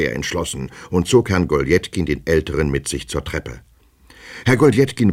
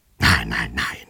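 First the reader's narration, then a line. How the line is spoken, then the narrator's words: Repulsive man whispering. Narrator (German): flüsterte der widerliche Mensch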